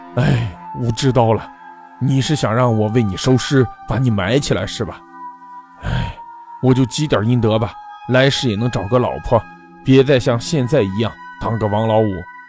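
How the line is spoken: Sighing. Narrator (Chinese): 王五叹了一口气说

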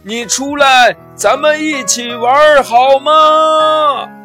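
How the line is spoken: Calling out again. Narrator (Chinese): 傻瓜熊又喊道

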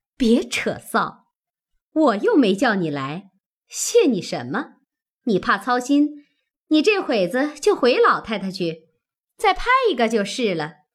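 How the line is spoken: Laughing. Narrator (Chinese): 凤姐笑道

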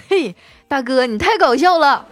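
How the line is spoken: Laughing. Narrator (Chinese): 司机啊哈哈一笑说

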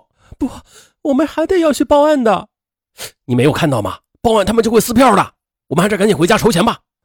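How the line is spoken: Holding back tears. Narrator (Chinese): 邓玲玲止住哭声说

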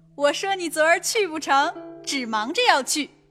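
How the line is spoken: Laughing. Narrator (Chinese): 李纨笑道

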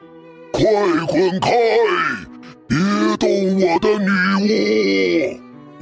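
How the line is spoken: Angry monster roaring. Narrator (Chinese): 怪物生气的对大恶龙吼道

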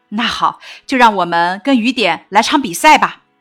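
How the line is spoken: Relieved, smiling. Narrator (Chinese): 妈妈顿了顿，轻轻地把我放下来，舒了一口气，笑着说

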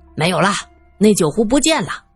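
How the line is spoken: Shouting. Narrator (Chinese): 旺堆喊道

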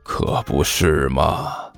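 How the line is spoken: Low mutter. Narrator (Chinese): 关小雨低声嘀咕了一句

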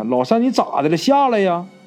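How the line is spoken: Group shouting. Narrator (Chinese): 大伙都喊

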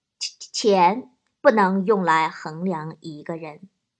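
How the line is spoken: Elderly man, slow. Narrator (Chinese): 岳父老大人 缓缓地说

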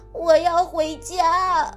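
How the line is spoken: Crying. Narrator (Chinese): 麦克终于忍不住哭了起来

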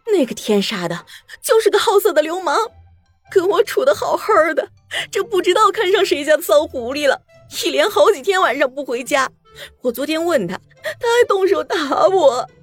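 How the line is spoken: Sobbing. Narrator (Chinese): 陈寡妇捂着脸呜呜的说，边抽泣边说

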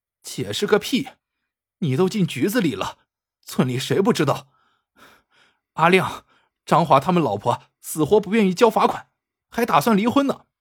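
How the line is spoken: Furious. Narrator (Chinese): 小兰怒火中烧

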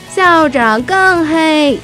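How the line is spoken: Crowd shouting. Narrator (Chinese): 同学们大喊道

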